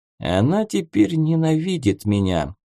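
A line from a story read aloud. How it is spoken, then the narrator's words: Dead, flat voice. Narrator (Russian): мертвым голосом произнес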